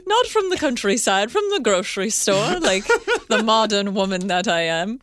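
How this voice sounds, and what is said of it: Clumsy put-on British accent. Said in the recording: “This is going very Mrs. Doubtfire with this British accent. ... I can't do accents.”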